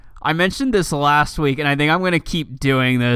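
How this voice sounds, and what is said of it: Usual voice. Nothing is said of it.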